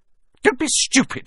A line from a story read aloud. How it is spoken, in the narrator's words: snapped Aunt Petunia